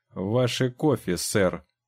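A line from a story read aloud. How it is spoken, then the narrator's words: Very angry cook. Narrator (Russian): чрезвычайно сердито сказал повар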